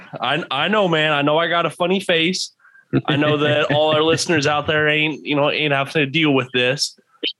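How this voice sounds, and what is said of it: Southern drawl. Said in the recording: “it's probably that Southern drawl trying to say Pena.”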